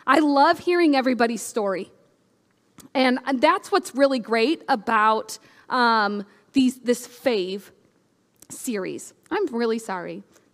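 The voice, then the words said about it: Choked-up, emotional voice. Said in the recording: “I'm all choked up.”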